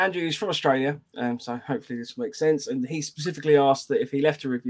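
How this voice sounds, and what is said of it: Usual voice. Nothing is said of it.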